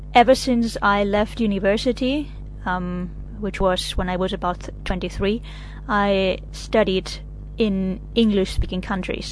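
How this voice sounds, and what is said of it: German accent in English. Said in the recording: “my German accent when I speak English”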